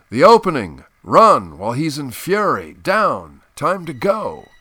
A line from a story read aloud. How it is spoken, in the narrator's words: the alert one was shouting